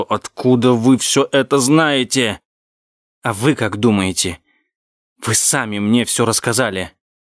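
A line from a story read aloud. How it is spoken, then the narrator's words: Hissing in her face. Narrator (Russian): я прошипел ей в лицо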